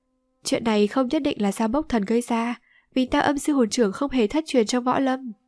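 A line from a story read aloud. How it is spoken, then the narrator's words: Smiling. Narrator (Vietnamese): Từ Mã Thiến Như mỉm cười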